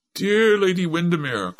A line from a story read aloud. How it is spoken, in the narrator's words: cried the Marchesa of Jedburgh